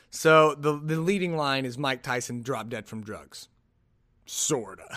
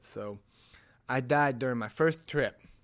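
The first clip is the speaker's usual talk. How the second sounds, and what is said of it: Lisping imitation of another's voice. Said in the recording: “my Mike Tyson impression ... Really, it's just going to be the lisp. ... his voice is, it's like high pitch, but it's not. ... Really, the lisp is all you can get.”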